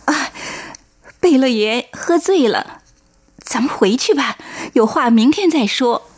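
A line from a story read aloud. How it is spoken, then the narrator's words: Forced smile, holding back tears. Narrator (Chinese): 忍泪勉强笑着说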